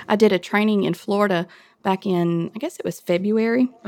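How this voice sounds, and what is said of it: Southern US accent, Mississippi. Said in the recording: “You're clearly from the South based on your accent ... Are you from Mississippi?”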